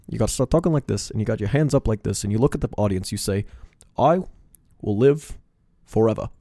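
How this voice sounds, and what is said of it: Bernie Sanders impression. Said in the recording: “Your Bernie Sanders impression is not good.”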